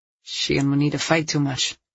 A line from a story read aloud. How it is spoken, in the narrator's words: he mumbled